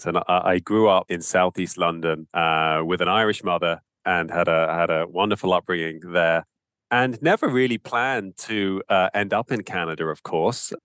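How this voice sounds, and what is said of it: British accent. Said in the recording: “I have a very Irish name, but actually I have a British accent.”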